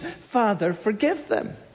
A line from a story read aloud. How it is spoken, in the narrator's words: he cries out to the Father in compassion